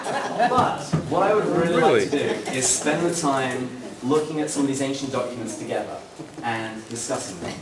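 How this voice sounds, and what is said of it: Speaker's own noticeable accent. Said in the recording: “I may have a nice accent, and I do.”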